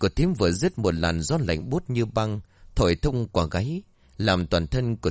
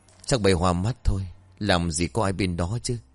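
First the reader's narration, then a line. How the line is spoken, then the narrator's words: Sighing. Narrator (Vietnamese): Thiếp thở dài rồi nói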